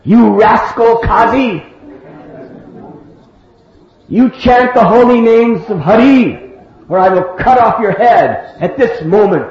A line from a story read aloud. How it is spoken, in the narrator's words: he screamed out in a loud voice